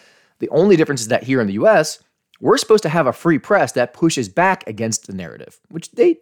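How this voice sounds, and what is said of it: Usual voice. Nothing is said of it.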